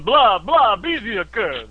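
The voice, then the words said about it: Mock French accent. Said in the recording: “My French accent.”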